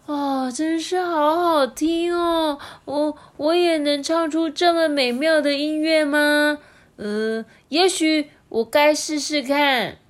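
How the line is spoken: Admiring. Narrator (Chinese): 马可斯赞叹着说

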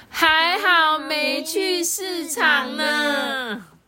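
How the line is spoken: Joyful near tears, in unison. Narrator (Chinese): 高兴的想要哭哎，他们异口同声的说

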